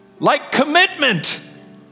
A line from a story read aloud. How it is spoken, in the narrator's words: man bellowed